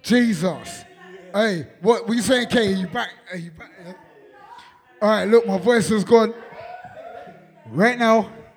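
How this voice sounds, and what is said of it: Hoarse, strained, nearly lost voice. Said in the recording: “My voice is gone. ... Hey, my voice is gone, you know. My voice is gone.”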